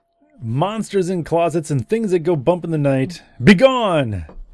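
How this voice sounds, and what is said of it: Dramatic announcer voice. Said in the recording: “In my announcer voice?”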